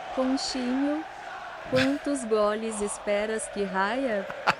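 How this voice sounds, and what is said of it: Put-on Portuguese-Spanish mixed accent. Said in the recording (Spanish): “Me encantó el acento portugués, sí. de ... Estuvo perfecto ese acento de portuñol.”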